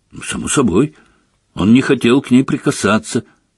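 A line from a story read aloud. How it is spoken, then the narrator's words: Angry. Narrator (Russian): сердито сказал Гарри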